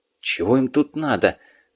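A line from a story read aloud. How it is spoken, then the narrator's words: Officer's angry whisper. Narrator (Russian): зло прошептал участковый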